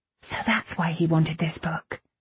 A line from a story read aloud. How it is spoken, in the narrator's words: whispered